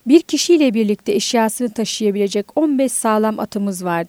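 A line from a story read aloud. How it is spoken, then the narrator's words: Plain. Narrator (Turkish): dedi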